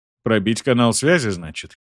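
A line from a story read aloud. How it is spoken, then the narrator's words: Scoffing grunt. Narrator (Russian): хмыкнул он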